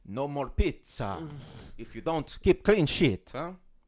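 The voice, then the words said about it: Put-on Italian accent. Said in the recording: “that was my Italian accent ... It's pretty good.”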